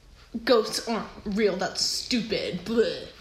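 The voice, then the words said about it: Imitates another person's voice. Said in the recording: “That's an incredible impersonation of my brother.”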